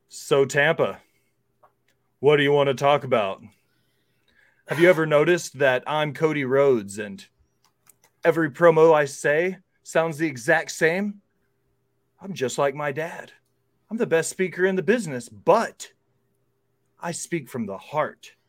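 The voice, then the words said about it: Serious imitation of another person's voice. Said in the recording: “my best Cody Rhodes impression. ... he gets real serious”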